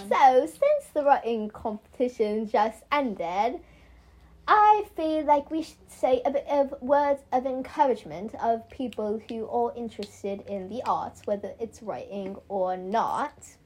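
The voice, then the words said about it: Put-on British accent. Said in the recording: “I don't know why I'm talking British accent. It's fun though.”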